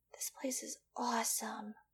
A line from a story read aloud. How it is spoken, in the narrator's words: breathed the gasman